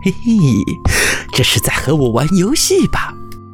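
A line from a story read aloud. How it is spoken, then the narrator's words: Laughing. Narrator (Chinese): 月亮笑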